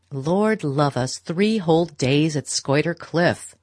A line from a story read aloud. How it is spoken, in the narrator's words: Beaufort was saying in his loud, sneering voice